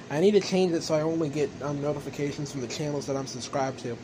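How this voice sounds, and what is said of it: Southern accent. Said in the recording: “speaking in the southern accent. This is not really my normal accent.”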